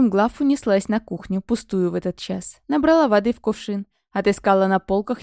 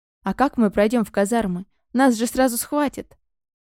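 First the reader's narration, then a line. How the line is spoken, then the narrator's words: Sighing. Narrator (Russian): Разум вздохнул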